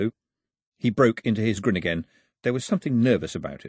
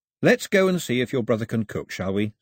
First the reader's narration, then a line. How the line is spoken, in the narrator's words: said Mao, keeping his voice level and friendly